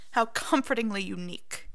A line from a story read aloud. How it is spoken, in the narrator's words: Snape sneers